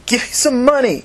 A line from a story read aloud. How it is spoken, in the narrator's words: she said angrily